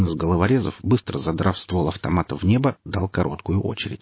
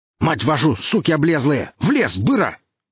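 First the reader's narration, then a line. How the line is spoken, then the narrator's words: Snarling yell. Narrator (Russian): заорал он, оскалив зубы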